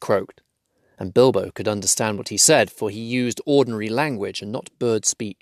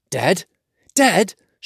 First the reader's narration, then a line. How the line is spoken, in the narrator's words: shouted the dwarves